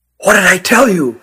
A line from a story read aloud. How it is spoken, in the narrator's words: whispered Nathan